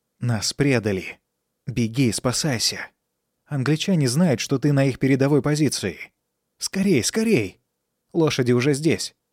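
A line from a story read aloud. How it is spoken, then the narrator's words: Quiet. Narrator (Russian): тихо сказал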